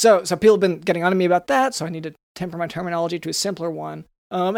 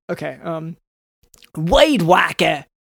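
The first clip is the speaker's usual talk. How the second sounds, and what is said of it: Poor attempt at Cajun accent. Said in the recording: “Do it more of a Cajun accent. ... Is that Cajun? ... No, not at all.”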